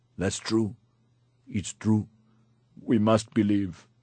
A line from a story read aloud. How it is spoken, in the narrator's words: sobbed